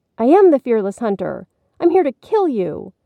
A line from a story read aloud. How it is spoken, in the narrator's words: Billy exclaimed bravely